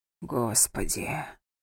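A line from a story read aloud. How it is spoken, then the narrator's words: Stunned whisper. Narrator (Russian): прошептал ошарашенный Златан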